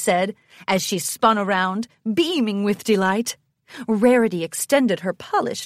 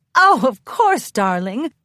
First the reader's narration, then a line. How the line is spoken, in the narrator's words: Rarity laughed